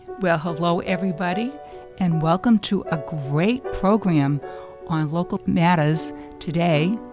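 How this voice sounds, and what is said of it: Hoarse, froggy voice. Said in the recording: “If I sound a little froggy, it's because my voice is bad”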